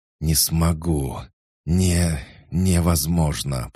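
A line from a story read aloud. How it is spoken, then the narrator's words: Hoarse, choking on blood. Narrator (Russian): прохрипел я, с каждым словом выплевывая кровь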